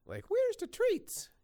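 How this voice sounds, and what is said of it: High-pitched dog character voice. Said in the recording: “the dog voice ... voice is very up here, but like it doesn't sound like the dog today”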